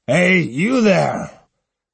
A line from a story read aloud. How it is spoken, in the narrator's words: the captain bellowing